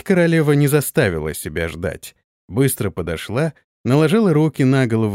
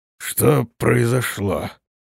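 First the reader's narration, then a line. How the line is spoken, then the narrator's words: Hoarse wheezing question. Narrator (Russian): спросил он, хрипя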